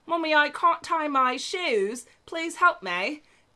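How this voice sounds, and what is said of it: Put-on British English accent. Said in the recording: “I'm going to start this off with an English accent ... what accent am I imitating? ... Probably a British or something.”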